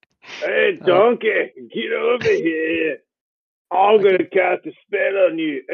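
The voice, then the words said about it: Shrek-like character voice. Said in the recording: “I figured maybe Sarril would sound like Shrek”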